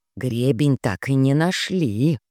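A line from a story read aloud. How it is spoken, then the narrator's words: Whispered in ear. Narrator (Russian): Вилли успела шепнуть мне на ухо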